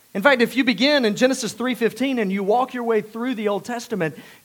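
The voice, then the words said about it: South Georgia Southern accent. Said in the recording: “I know you couldn't tell that by my accent, right? ... South Georgia, which is where I grew up”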